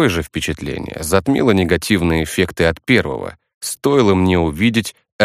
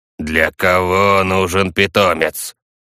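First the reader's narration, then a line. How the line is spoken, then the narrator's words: Creaky old man. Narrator (Russian): Проскрипел пожилой мужчина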